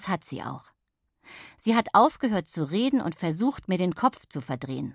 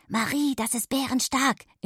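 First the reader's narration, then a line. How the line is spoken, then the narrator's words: Whispered in ear. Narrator (German): in mein Ohr geflüstert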